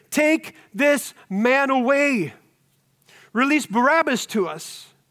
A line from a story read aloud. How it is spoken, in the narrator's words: all cried out together